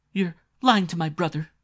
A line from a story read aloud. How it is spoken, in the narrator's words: Mary cried